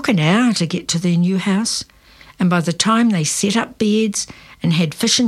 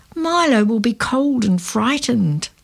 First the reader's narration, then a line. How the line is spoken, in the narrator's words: Lenny moaned